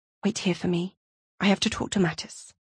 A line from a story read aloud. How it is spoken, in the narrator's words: Stasia whispered to Irina